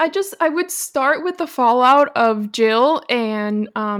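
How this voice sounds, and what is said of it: Usual voice. Nothing is said of it.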